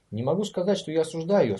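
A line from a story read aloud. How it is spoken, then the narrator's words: Calm remark. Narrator (Russian): спокойно заметил прокурор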